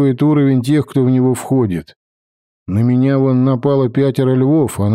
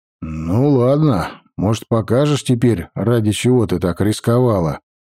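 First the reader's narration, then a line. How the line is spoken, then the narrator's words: Plain. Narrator (Russian): спросил я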